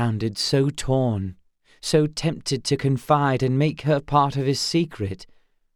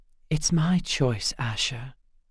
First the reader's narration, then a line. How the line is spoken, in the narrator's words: she whispered